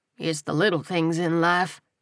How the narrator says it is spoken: he murmured

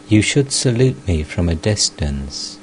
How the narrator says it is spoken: Sri Ramakrishna consoled her and said in a very kindly tone

